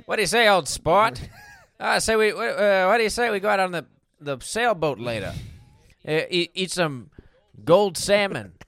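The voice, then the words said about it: Posh rich-guy character voice. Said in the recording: “my impression of a rich guy”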